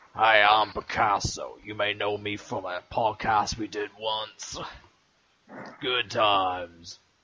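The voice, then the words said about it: Poor impression of the co-host. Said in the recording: “That was a terrible impression of me.”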